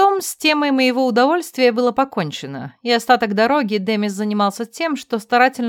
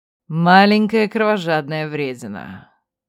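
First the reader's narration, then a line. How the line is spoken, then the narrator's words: Sorrowful sigh. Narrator (Russian): сокрушенно вздохнул Райер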